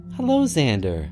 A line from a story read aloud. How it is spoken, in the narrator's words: said cheerfully